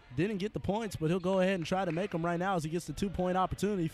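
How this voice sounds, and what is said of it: Strained voice with lost bass. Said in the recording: “excuse my voice. Everyone's here fighting the cold or the flu or whatnot ... The bass in my voice is suffering right now”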